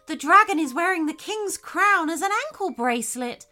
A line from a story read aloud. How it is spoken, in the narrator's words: shouted Sally